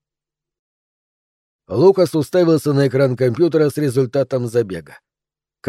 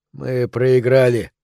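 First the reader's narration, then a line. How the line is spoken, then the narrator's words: Hoarse. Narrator (Russian): хрипло сказал Лукас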